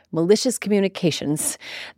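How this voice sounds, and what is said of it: Posh British accent. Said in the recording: “in a posh British accent.”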